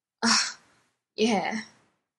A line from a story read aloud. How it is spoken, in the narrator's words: Dean croaked, his throat raw